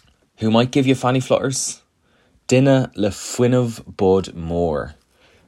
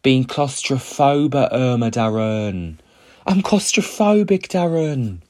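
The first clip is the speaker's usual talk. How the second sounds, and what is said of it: Put-on Essex accent. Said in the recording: “you'll hear Gaeilge in an Essex accent.”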